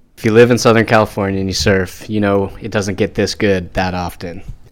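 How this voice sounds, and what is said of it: Surfy Southern California voice. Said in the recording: “voice is more surfy”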